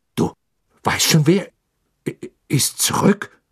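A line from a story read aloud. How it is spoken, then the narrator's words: Stammering. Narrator (German): stammelte er schließlich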